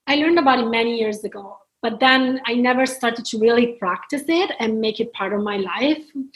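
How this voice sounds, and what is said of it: Italian accent. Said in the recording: “You've got a beautiful Italian accent ... You've got a beautiful accent. You're from Italy.”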